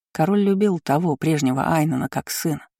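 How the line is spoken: Plain. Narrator (Russian): сказал Верению

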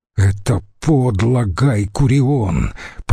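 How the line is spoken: Hissed through teeth. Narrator (Russian): прошипел Брут сквозь зубы

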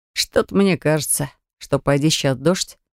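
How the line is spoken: Smirking grunt from back. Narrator (Russian): хмыкнул кто-то с задней парты

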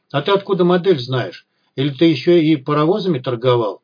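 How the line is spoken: Plain. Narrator (Russian): спросил Малахов

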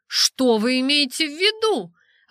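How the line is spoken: Exclaimed. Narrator (Russian): воскликнула я

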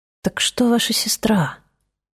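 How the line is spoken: Whisper. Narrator (Russian): прошептал он

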